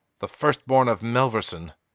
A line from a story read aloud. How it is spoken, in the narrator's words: fiercely